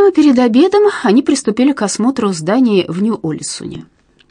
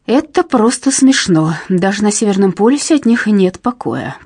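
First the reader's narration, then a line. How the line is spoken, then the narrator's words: Hissing scientist. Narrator (Russian): прошипел немецкий ученый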